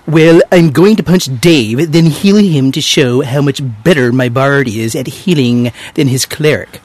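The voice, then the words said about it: Nerdy character voice. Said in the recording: “I'm supposed to insert nerd voice.”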